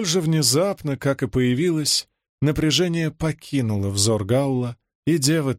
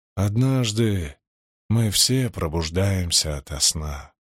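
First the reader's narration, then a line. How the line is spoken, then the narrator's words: Gentle. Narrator (Russian): мягко сказал Гаул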